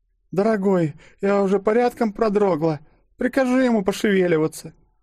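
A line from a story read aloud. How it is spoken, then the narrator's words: Haughty cooing woman. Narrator (Russian): проворковала спутница, обладающая красотой снежной королевы, поскольку вела она себя столь же высокомерно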